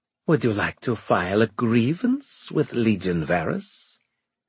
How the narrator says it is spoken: She asked in a sly voice

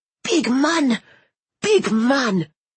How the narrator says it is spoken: cried one of the grandmothers

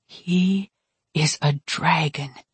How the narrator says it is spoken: I whispered

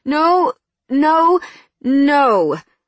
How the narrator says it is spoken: I slurred

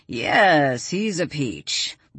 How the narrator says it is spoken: Walt grumbled

